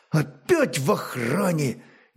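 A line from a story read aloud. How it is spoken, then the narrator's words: Displeased mutter under breath. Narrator (Russian): Недовольно буркнул про себя младший Раражич с еще юношеским пушком вместо усов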